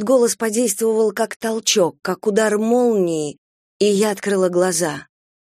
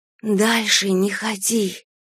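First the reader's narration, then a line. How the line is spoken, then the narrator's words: Pure, piercing whisper. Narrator (Russian): прошептал голос, такой чистый, что слышать его почти невыносимо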